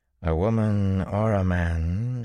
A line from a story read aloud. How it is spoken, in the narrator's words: she drawled at last